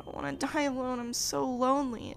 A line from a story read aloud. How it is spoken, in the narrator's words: whimpered